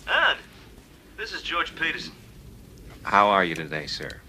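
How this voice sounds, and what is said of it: Imitates another person's voice. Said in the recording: “worst impression ever”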